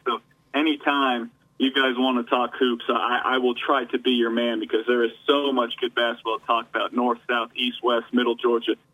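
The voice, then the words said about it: Excited, energetic voice. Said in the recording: “I don't know if you can tell by my voice, I do get a little excited”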